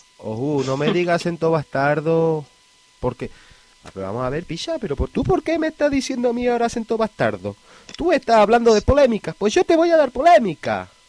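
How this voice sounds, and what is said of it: Put-on Andalusian gitano accent. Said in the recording (Spanish): “¿Por qué pones ese acento bastardo en mi podcast? ... ha sido poseído por el espíritu de un gitano andaluz”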